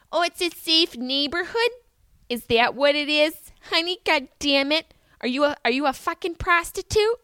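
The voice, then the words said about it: Upstate Syracuse accent impression. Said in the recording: “in her upstate Syracuse accent”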